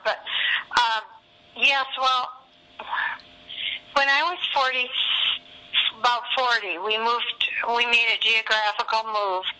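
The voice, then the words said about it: Hoarse voice. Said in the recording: “hoarse throat. I've got a cold coming on.”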